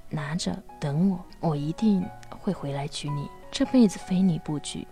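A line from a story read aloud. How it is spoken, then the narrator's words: Quiet, low voice. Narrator (Chinese): 低声地和女孩说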